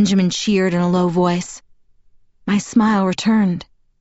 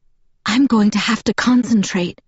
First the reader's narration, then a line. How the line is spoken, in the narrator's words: I whispered to Edward